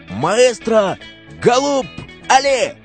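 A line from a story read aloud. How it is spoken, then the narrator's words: Shout. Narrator (Russian): Он закричал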